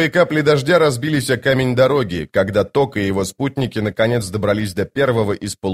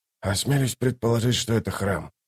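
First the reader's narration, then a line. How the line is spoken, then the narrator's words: Muttered. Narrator (Russian): пробормотал Ток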